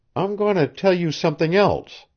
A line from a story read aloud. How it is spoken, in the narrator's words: she faltered